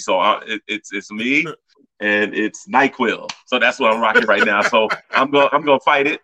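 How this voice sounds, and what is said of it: Sick voice with a cold. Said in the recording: “as you can hear in my voice, I've been around all these people with a cold... now it's trying to get me”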